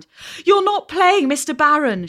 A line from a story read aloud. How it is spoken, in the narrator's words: cried, breathless